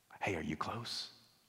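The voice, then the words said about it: Whispered line. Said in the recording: “in a whisper ... Why are you whispering?”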